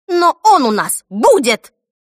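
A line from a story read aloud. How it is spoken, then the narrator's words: Barking snap. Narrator (Russian): рявкнула Брит-Мари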